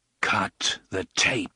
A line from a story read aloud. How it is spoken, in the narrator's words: the gunslinger said grimly